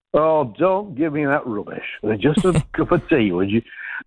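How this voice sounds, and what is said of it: Put-on Yorkshire accent. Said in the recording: “I go straight into the Yorkshire accent”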